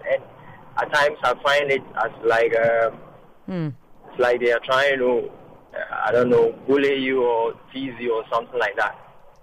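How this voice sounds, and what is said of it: Foreign accent speaking English. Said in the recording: “I'm a foreigner ... hey, you have an accent ... whenever you're speaking another person's language, definitely you're going to have an accent ... So you're tired of talking about your accent?”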